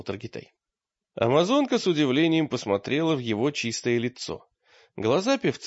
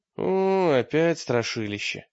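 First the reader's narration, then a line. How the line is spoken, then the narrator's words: Sigh. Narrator (Russian): вздохнул Таргитай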